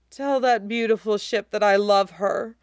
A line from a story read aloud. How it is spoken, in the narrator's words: Usopp moans deliriously into the grass